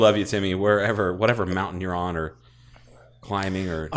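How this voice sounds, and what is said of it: Usual voice. Nothing is said of it.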